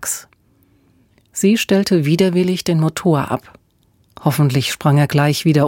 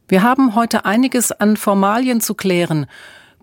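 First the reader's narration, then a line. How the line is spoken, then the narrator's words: Bellowing back. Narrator (German): brüllte Emma zurück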